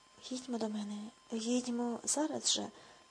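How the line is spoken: Hoarse. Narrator (Ukrainian): хрипко сказав

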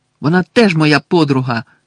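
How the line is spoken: Shouted. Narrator (Ukrainian): крикнув Гаррі

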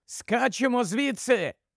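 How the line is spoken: Sudden shout, short man. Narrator (Ukrainian): вигукнув раптом коротун

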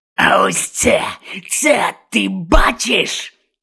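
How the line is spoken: Growling. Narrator (Ukrainian): Гарчав Гонт на Огдена

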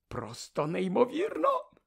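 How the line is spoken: Whispering. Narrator (Ukrainian): шепотів

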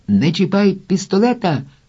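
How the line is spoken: Soldier's shout. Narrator (Ukrainian): крикнув один з бійців

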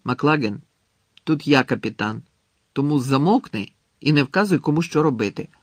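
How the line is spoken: Angry interruption. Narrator (Ukrainian): сердито обірвав його Гаррі

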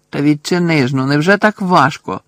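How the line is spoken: Angry exclamation. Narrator (Ukrainian): Сердито вигукнув

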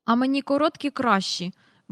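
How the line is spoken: Grumbled. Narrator (Ukrainian): буркнув Майкл

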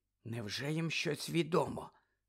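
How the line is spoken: Whisper. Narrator (Ukrainian): зашепотіла Герміона

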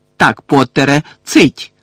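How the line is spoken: Barked order. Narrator (Ukrainian): гаркнув Фадж

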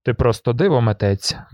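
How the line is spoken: Grumble. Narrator (Ukrainian): буркнув

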